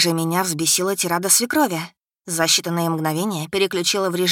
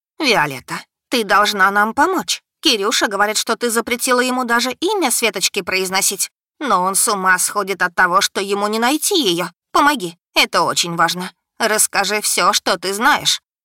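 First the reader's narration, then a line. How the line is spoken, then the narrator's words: Rapid chattering. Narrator (Russian): Нина Тихоновна затараторила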